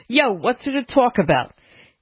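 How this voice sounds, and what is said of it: Put-on New York accent. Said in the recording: “It said Joe from New York, so I'm just giving him that accent.”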